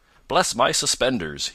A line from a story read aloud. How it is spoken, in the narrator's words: he cried to Tom